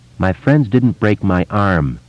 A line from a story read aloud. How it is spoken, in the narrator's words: Eddie said in that same flat voice